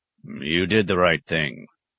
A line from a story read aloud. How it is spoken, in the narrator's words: grunted at last